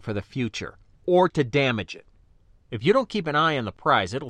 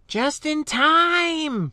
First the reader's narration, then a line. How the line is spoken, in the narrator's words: she cried with delight